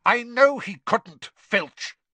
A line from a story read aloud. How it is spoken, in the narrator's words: Snape snapped